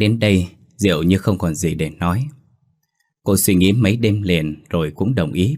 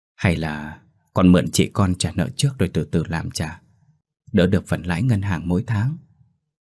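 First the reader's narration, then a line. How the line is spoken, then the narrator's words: Sweet, soft coaxing. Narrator (Vietnamese): Bà Hoa nhỏ nhẹ như rót mật vào tai cô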